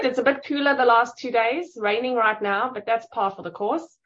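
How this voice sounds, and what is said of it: Noticeable accent. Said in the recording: “I love that accent”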